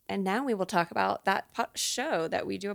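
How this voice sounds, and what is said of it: Gravelly voice with vocal fry. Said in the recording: “I have a little bit of vocal fry ... Maybe I sound a little gravelly like Amy Winehouse ... my throat's a little ouchy today”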